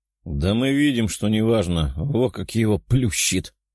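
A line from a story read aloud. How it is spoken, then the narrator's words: Chuckling guard. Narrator (Russian): хохотнул один из охранников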